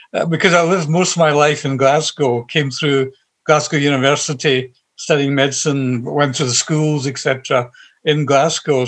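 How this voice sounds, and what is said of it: Scottish Glasgow accent. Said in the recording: “you don't sound South Asian. In fact, you've got what I used to call a Glasgow University accent.”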